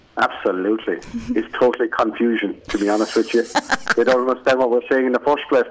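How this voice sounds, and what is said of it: Irish accent. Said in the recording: “People go, "Oh, he's Irish." ... that is your accent”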